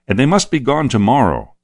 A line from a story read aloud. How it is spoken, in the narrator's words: said the soldier sharply